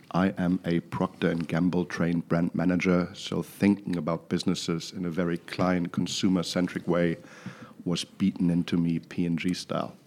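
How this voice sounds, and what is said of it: German accent. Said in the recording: “I hail from Düsseldorf, Germany, in case you're wondering where the funny accent is from.”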